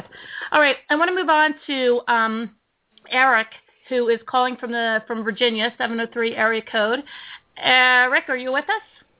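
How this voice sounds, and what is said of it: Squeaky, unwell-sounding voice. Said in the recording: “it's my squeaky voice ... I sound like crap, but I feel fine”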